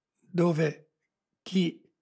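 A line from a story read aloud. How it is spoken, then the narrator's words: Stammering boy. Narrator (Italian): balbettò il ragazzo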